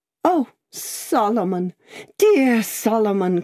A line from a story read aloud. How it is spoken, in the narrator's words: cried Miss Pross